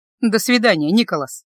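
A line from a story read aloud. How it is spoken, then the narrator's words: Sharp. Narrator (Russian): резко сказала я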